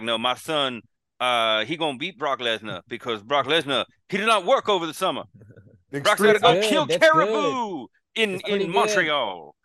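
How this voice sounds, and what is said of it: Slow Dusty Rhodes impression. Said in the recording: “do a Dusty impression ... You gotta slow it down a little bit”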